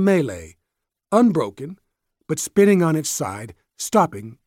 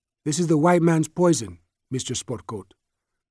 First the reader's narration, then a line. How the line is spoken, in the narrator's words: Soup said calmly